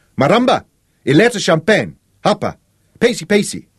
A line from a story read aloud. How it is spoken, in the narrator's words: Sean shouted at the kitchen tent